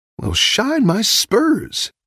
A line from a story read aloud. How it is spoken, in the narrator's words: Woody exclaimed